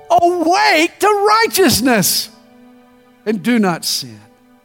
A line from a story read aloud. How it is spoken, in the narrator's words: he finally shouts